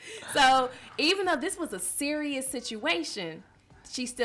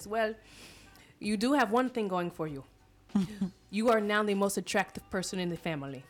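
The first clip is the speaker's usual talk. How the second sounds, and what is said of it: Put-on accent, sounds like a cold. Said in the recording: “the accent is killing me ... Oh, I thought you were catching a cold. ... my accent was off the hook.”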